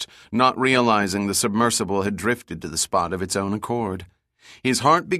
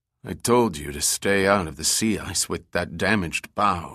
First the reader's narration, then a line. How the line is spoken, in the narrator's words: grumbled